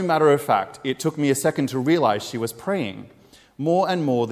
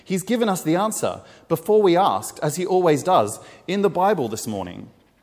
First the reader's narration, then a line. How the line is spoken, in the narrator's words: she exclaimed